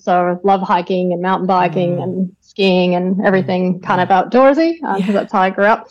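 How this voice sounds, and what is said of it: Western Canadian accent. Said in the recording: “you can probably pick the accent... I grew up in Canada, in the western part”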